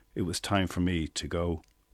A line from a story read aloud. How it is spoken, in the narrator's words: quietly signalling